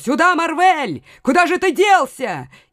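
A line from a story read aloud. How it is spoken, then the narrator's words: Shouting. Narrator (Russian): он кричал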